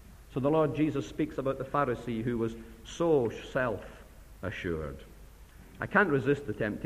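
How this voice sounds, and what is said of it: Usual voice. Nothing is said of it.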